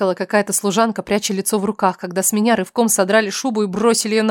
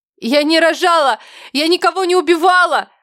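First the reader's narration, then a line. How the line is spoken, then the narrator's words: Shrill scream. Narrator (Russian): пронзительно закричала я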